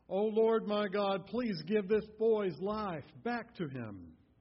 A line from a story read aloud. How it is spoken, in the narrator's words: cried out to the Lord